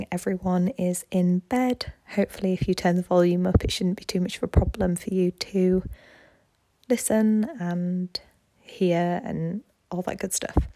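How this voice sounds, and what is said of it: Whispering. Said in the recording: “Apologies that I'm whispering.”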